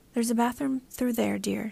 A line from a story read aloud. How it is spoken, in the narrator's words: she told me quietly